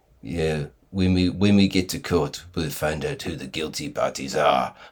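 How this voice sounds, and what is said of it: Poor put-on South African accent. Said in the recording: “I'm going to do a terrible South African, Zimbabwean accent.”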